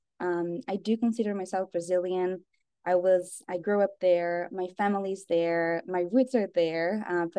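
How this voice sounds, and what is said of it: Slight Brazilian accent. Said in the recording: “I grew up in Brazil. So you will hear a little accent behind.”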